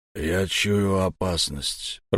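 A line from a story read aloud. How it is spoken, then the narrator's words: Hoarse, strained. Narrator (Russian): прохрипел Хаку, чьи глаза, казалось, вылезут из орбит от напряжения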